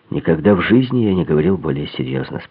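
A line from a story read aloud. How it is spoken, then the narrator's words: Calm. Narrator (Russian): спокойно ответил лейтенант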